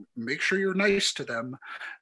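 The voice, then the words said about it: Bad Lorne Michaels impression. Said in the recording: “in his kind of like Lorne Michaels voice ... bad Lorne Michaels impression”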